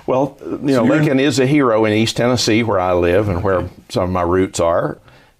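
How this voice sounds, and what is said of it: Regional American accent. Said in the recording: “I can tell by your accent that you're not from northern Maine.”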